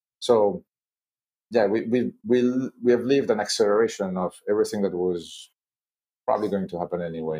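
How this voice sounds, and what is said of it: French-accented English. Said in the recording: “people might think from your accent and from Schneider that you you're you're in, in in Paris”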